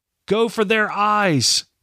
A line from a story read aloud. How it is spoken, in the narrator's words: Kenward shouted